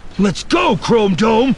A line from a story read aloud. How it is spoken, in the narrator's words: Finn yelled back, taking a wild swing with the axe